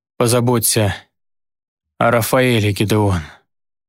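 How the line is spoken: Hoarse wheeze. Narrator (Russian): просипел я

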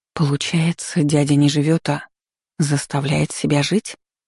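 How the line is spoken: Hoarse, dawning realization. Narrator (Russian): просипела, полностью осознав услышанное

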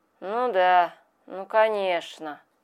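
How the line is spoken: Old man mumbling. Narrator (Russian): пробурчал в ответ старик

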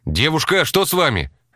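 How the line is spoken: Shouted out. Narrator (Russian): выкрикнул он

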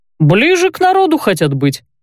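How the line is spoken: Short laugh. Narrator (Russian): хохотнул Барт

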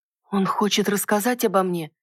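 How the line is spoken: Nervous, breathless guess. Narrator (Russian): предположила, глубоко вздохнув, с трудом унимая забившееся сердце

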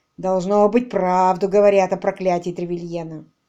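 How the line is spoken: Grumbling. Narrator (Russian): ворчал Броуди

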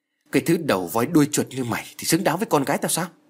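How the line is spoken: Angry. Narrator (Vietnamese): Ông Hơn giận dữ nói

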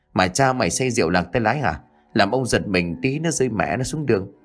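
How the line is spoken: Frightened soft yelp. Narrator (Vietnamese): Lão Kháng bị một phen hoàng hồn rú lên khe khẽ

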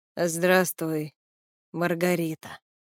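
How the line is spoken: Slightly husky voice. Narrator (Russian): с легкой хрипотцой в голосе произнес

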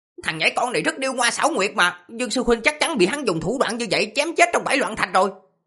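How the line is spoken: Hateful shout. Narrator (Vietnamese): tiếng quát căm hận, có người nói

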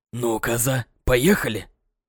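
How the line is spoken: Hissing whisper. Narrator (Russian): Сказал Жорик свистящим шепотом

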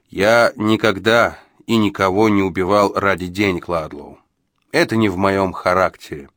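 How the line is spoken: Calm reply. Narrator (Russian): спокойно ответил Джо

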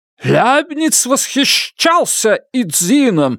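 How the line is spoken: Passionate exclamation. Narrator (Russian): страстно воскликнул Руди

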